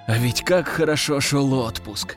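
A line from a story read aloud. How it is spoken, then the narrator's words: Sigh. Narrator (Russian): вздохнул диверсант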